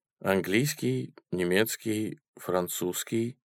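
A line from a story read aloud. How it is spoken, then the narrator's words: Quiet Martian. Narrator (Russian): тихо ответил марсианин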